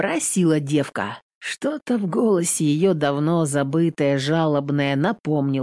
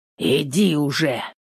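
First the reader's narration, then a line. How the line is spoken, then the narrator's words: Rough, harsh. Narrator (Russian): грубо сказал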